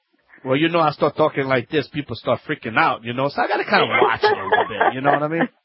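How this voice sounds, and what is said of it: Cajun accent. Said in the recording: “your Cajun accent”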